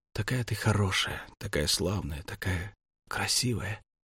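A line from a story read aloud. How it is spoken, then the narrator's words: Whispering. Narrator (Russian): шептал ей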